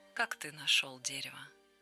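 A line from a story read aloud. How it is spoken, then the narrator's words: Quiet question. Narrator (Russian): Человек спросил тихо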